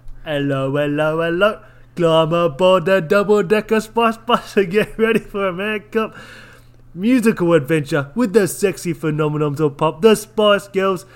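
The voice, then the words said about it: Put-on British accent. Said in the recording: “Should I do it in a British accent? Is that governor?... I've got to get my accent.”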